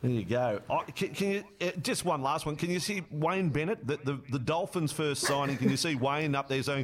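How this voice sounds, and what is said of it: Usual voice. Nothing is said of it.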